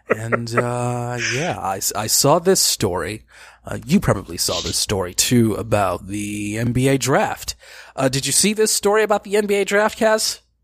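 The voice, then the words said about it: Imitates another person's voice. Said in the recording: “I'm doing the best JVZ impression that I can”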